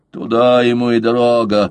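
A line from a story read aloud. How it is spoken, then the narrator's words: Drunken grumble. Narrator (Russian): проворчал Волверстон, который был уже изрядно под хмельком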